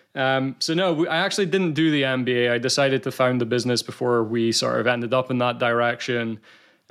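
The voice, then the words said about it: Scottish accent. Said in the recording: “you as a Brit can probably sense the Scottish accent”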